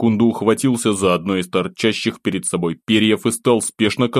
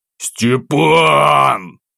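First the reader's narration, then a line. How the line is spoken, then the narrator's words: Straining growl. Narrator (Russian): Зарычал я, с трудом удерживаясь на спине монстра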